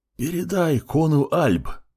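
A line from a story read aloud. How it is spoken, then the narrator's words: Strange wheezing hiss. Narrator (Russian): Просипел паук непонятно чем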